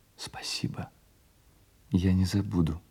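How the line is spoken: Whispered. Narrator (Russian): прошептала она

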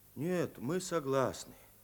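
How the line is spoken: Quiet, soft-spoken. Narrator (Russian): тихо поднял голову и негромко сказал

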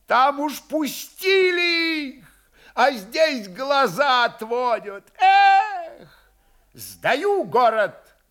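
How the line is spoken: Loud shout. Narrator (Russian): громко закричал стрелецкий голова Красулин

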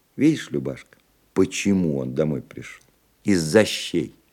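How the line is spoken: Sad. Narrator (Russian): печально произнесла Вера

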